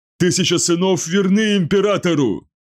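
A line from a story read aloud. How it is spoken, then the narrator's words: Shout through bloody foam. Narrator (Russian): выкрикнул Анхуанен, несмотря на то, что на губах появилась кровавая пена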